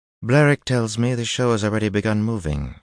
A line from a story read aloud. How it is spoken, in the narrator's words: she said coolly